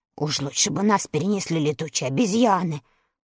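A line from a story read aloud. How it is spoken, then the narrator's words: Grumbling mutter. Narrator (Russian): пробурчал он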